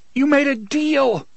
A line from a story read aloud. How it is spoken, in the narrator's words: the boy screamed after him